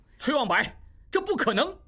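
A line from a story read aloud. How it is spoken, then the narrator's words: Loud shout. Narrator (Chinese): 应济一时真是百口莫辩，大声叫道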